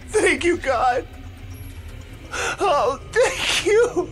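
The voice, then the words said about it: Cracking, tearful voice. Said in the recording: “my voice cracking ... I fell into another fit of uncontrollable sobbing”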